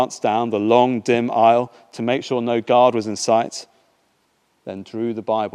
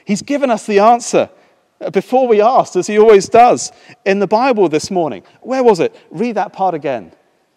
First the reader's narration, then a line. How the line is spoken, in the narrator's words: she said excitedly